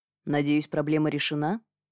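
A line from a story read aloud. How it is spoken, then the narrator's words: Dry inquiry. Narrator (Russian): сухо осведомился Линар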